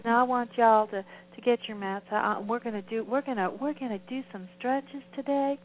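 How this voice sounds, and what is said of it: Imitated southern accent. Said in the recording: “she's a minister, and she talks with a southern accent.”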